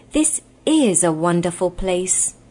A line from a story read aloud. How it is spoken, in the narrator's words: said Shasta in an awed voice